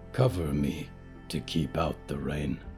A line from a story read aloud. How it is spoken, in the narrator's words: she growled